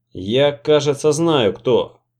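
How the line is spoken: Plain. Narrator (Russian): сказал я

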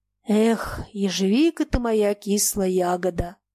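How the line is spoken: Sighing, interrupting. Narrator (Russian): вздохнул, сказав он, перебивая речь Фомы

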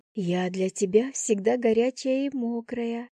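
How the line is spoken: Whispered. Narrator (Russian): шепотом добавила я

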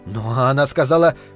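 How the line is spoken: Hurried start. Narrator (Russian): торопливо начал мужчина

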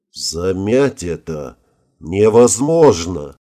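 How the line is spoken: Muffled, flat voice. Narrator (Russian): глухо произнес министр

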